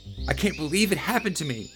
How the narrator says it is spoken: cried some more, feeling blue

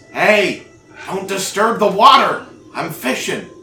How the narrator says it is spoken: somebody shouts at you and says

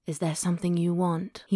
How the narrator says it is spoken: He murmured

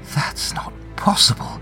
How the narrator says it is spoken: Mina whispers, feeling a thrill of both dread and fierce curiosity

